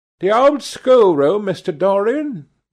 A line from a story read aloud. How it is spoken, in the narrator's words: she exclaimed